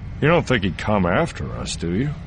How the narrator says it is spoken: grunted

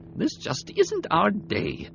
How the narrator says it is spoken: Boyne muttered

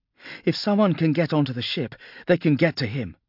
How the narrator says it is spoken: gasped Viola

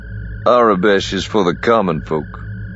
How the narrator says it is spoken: Lando said dryly

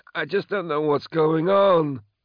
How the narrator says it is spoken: Moloch whined

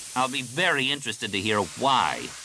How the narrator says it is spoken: Corran snapped

